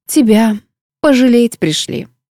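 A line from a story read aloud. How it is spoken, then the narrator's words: Sighed with feigned sympathy. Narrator (Russian): с притворным сочувствием вздохнула я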